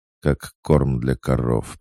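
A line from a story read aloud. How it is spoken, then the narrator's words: Through gritted teeth. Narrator (Russian): процедила она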